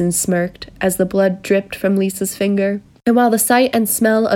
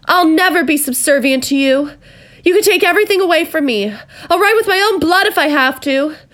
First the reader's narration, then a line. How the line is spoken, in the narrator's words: Lisa shouted at the top of her lungs